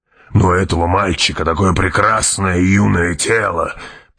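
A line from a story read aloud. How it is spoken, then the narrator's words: Muttering. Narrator (Russian): пробормотал барон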